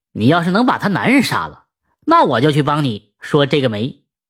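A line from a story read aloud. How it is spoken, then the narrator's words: Joking. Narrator (Chinese): 这媒婆 也开玩笑的说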